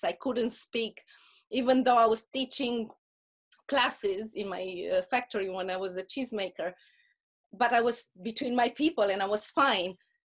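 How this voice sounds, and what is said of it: Speaks with a foreign accent. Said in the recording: “I hated my accent so bad. ... people were telling me, I can't understand you.”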